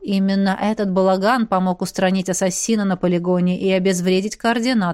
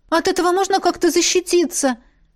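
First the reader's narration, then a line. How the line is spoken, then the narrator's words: Frightened question. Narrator (Russian): испуганно уточнила Беата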